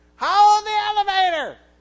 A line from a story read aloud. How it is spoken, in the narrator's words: an older gentleman, probably in his 80s, hollers out